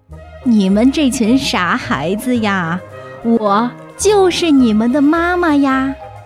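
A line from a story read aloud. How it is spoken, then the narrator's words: Smiling motherly reply. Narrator (Chinese): 青蛙妈妈笑着回答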